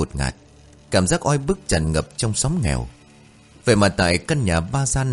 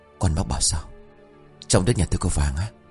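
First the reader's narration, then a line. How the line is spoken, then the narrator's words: Frightened, hushed older man. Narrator (Vietnamese): Người đàn ông độ ngoài 50, vội tái mặt, nhỏ giọng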